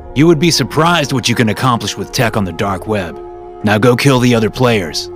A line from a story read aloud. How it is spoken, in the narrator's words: voice shouted into my headset